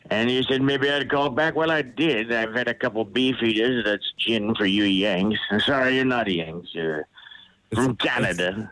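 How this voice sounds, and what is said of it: Inconsistent put-on British accent. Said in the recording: “The accent isn't even consistent. ... It goes from all over the place. ... Odd British guy to ... to odd British guy to ... several times.”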